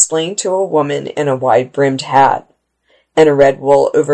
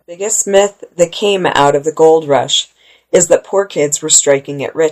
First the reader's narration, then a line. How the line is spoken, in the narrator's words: she said